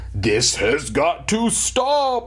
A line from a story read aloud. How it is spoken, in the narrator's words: bellowed